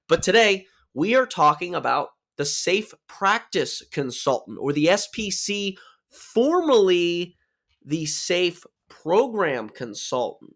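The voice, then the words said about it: Slightly off, sore-throated, low-energy voice. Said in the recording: “my voice is a little off or I'm lower in energy ... a little bit of a sore throat”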